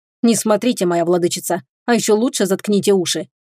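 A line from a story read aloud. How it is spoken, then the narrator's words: Growling dragon. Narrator (Russian): рыкнул дракон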